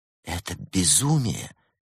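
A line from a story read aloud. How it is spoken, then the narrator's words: Incredulous whisper. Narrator (Russian): не веря своим глазам, шептала Антуанетта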